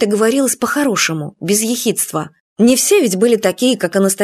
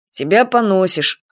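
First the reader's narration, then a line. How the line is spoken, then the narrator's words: Dry snort. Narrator (Russian): хмыкнул он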